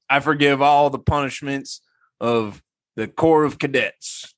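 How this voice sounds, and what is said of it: Put-on deep Southern accent. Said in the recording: “that's not a very good Southern accent ... in his deep Southern accent”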